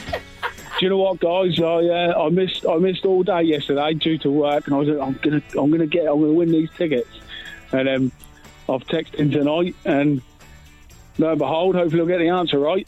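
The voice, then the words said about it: Regional Suffolk English accent. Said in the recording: “Got a bit of a regional accent going on? ... Lowestoft in Suffolk”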